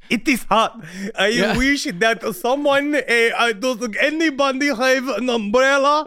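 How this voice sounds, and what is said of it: Put-on, hard-to-place foreign accent. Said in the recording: “I don't even know what accent that is.”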